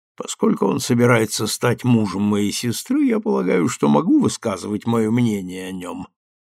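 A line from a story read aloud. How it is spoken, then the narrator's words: Grumbling. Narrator (Russian): проворчал Джеймс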